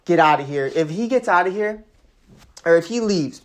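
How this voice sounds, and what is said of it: Slips into a Chicago accent. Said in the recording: “pardon my accent there, the little Chicago came out of me.”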